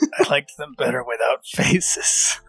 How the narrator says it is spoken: Ren very quietly mutters

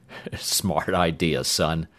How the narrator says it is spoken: the sergeant said with a dry chuckle

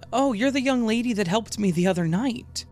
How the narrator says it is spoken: she said cheerfully

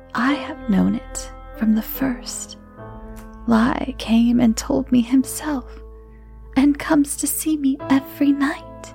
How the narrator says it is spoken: she quietly replied

